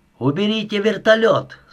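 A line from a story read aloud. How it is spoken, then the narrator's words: Shouting through a gap. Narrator (Russian): закричал Милошевич в щель между створками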